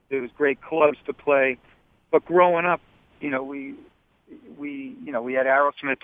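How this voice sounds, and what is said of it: Strong Boston accent. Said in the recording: “you have the total wicked piss of Boston accent”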